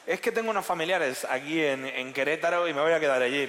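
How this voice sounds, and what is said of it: Put-on Mexican Spanish accent. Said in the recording (Spanish): “¿lo han dicho así con ese acento?”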